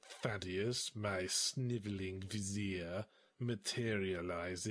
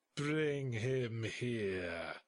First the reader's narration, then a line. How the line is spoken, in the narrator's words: I growled